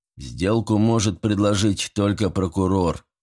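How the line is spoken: Gloomy. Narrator (Russian): мрачно заметил Харрис

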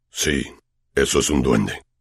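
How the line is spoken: Low voice. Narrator (Spanish): dijo Hagrid en voz baja

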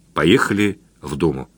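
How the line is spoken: Quiet. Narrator (Russian): тихо ответил

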